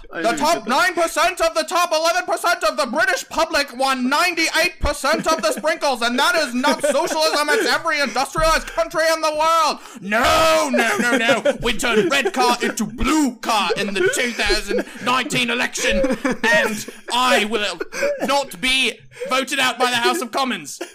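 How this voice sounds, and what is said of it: Bernie Sanders impression, British accent. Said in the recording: “now I'm doing British accent for Bernie Sanders ... That's Bernie Sanders.”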